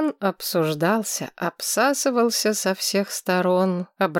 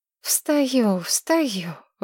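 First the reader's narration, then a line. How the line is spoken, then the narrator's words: Sighing. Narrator (Russian): вздохнула Маргарет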